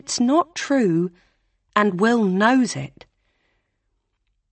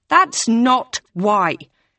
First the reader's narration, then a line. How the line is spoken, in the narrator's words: Hannah snaps